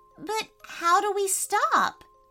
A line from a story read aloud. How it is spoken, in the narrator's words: pleaded Isabella as she sneezed again